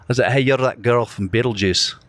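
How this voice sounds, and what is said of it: Put-on Scottish accent. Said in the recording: “I played a Scottish soccer player ... I'm going to be Duncan from Glasgow ... My accent was definitely better than it is right now ... Your accents are good, dude.”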